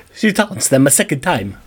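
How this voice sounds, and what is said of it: Bad put-on French accent. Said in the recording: “That was a horrible French accent. ... That was even worse. ... That's still bad.”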